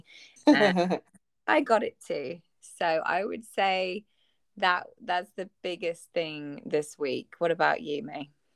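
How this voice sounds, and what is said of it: Croaky, hoarse voice. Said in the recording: “lost my voice and have had this terrible cough ... My voice is slightly croaky this evening”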